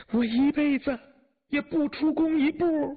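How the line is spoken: Distant crying wail. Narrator (Chinese): 远远还听他哭叫

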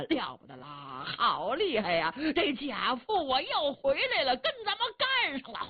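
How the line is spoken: Shouting in unison. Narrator (Chinese): 兵将齐声高喊

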